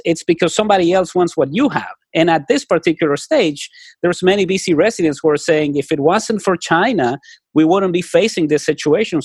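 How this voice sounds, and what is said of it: Speaks with a noticeable accent. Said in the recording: “I love your accent. I'm a big fan.”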